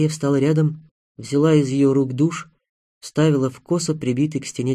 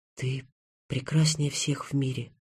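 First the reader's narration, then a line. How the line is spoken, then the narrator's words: Girl whispering. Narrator (Russian): прошептала девушка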